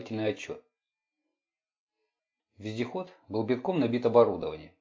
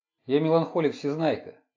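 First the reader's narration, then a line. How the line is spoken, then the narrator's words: Dejected, glum. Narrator (Russian): уныло сказал Марк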